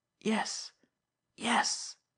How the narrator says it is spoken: he mumbled fiercely

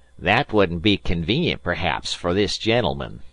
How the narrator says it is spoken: said the colonel in a jeering tone

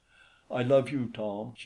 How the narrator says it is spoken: she said

